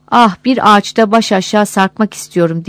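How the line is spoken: Shrill high voice. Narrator (Turkish): Tiz bir sesle

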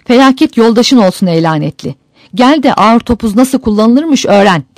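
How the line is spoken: Crying out. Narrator (Turkish): diye haykırmış

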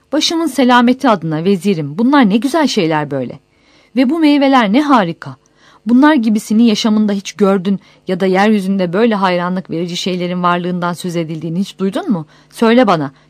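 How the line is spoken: Finishing with a cry. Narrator (Turkish): diye haykırarak sözünü tamamlamış

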